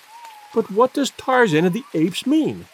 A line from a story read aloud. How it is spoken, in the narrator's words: cried the girl